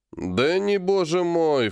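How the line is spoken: Snorting. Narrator (Russian): фыркнул

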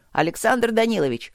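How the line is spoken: Shouting. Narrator (Russian): снова заорал Ситников

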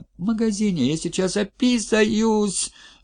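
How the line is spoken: Whining child. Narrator (Russian): захныкал мальчик

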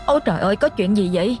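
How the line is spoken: Sudden loud booming boy. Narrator (Vietnamese): Tiếng thằng Toàn bất ngờ oang oang lên

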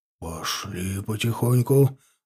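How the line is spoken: Whispering. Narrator (Russian): раздался шепот унтеров

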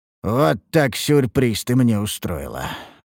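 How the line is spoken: Nervous muttering. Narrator (Russian): пробормотал я, вытирая выступивший пот

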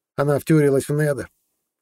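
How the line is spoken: Snide, tossed off. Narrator (Russian): ехидно бросил Иса

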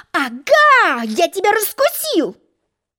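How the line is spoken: Angry yell. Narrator (Russian): гневно завопил Желток-Белток

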